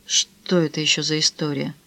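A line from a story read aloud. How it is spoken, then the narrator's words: Faint mumble. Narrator (Russian): едва пробормотал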